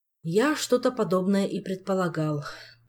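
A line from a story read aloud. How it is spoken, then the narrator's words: King sighing. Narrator (Russian): вздохнул король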